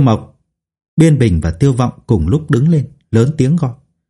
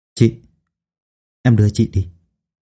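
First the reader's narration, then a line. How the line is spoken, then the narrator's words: Quiet voice. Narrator (Vietnamese): nhỏ giọng nói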